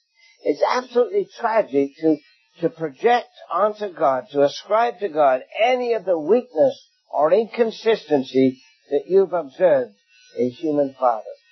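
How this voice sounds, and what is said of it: English accent. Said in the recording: “in England. You know where I come from my accent.”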